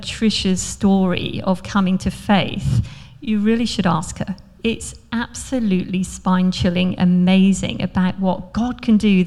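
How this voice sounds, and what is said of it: British accent, slightly posh. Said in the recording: “with my accent I'm not from here. I'm actually born in Scotland, but mainly lived in the UK, in the east of England, south of England, and then in Surrey, hence a little bit of that poshness in my voice... I've been Aussie-fied.”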